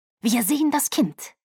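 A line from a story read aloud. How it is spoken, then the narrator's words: Hiss. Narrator (German): Carlyle fauchte Caius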